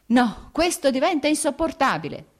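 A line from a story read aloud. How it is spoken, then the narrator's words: Shouted. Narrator (Italian): gridò Vronsky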